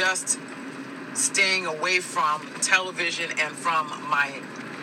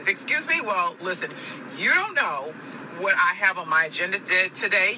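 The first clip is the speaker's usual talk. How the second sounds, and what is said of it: Raised, irritated voice. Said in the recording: “Now my voice is starting to raise.”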